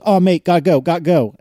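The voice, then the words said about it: Put-on British accent, Richard Hammond impression. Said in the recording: “forgive me for butchering your delightful accent, Myke, he says”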